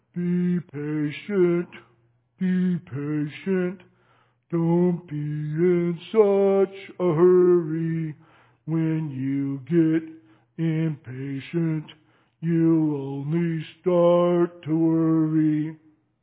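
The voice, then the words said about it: Sung in a silly snail voice. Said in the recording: “doing my snail voice this morning ... you're doing your snail voice”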